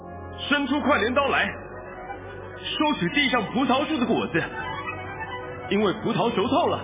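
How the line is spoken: Loud shout. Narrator (Chinese): 是有权柄管火的，像拿着快镰刀的大声喊着

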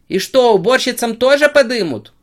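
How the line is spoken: Lively old woman shouting. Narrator (Russian): выкрикнула бойкая старушка

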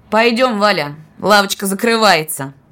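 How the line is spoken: Defiantly loud. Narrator (Russian): вызывающе громко, так, чтобы слышали все, проговорил он

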